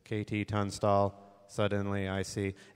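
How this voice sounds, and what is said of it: Robot voice. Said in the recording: “that's my robot voice.”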